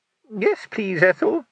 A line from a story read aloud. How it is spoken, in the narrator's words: quavered a tiny, frightened voice somewhere in the middle of the crowd of armed men